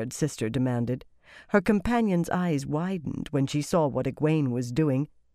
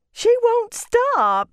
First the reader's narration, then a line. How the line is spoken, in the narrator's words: she wailed